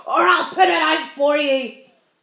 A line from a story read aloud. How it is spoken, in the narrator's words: shouted the centipede